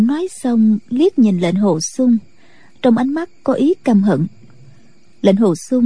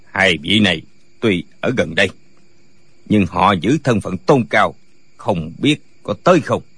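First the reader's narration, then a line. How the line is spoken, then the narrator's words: Cold. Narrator (Vietnamese): Tả Lãnh Thiền lạnh lùng nói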